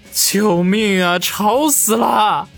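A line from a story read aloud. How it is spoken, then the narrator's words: Drowned out by laughter. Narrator (Chinese): 他的声音已经被众女的笑闹声给彻底的掩盖住了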